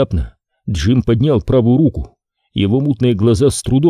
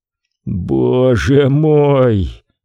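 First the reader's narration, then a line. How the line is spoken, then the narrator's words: Groaning. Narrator (Russian): простонал он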